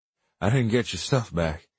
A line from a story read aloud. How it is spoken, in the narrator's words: said, gasping for breath